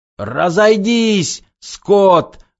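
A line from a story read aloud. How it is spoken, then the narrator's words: Yelling. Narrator (Russian): орал он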